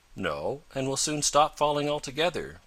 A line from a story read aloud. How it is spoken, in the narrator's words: calmly declared Tom